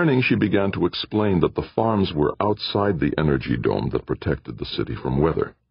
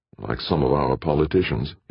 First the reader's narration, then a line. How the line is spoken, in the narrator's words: muttered